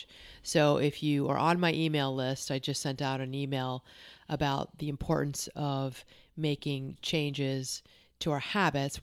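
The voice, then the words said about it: Congested voice from a cold. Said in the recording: “I am dealing with a cold, so my voice may sound a little bit different”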